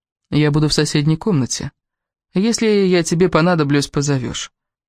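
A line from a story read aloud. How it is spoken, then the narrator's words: Calm reply. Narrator (Russian): спокойно ответил Кевин, но Элис почувствовала, как он напряжен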